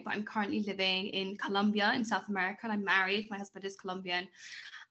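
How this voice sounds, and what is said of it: British accent. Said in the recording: “you can tell by my accent, I'm from the UK”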